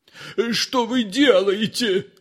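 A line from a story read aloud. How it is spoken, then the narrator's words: Screaming. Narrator (Russian): завопил Воробьянинов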